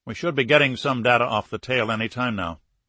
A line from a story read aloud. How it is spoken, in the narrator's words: Morris said